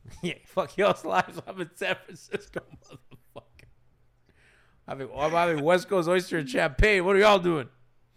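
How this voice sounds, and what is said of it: Hoarse, worn-out voice. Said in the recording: “My voice is so gone. I'm just dead.”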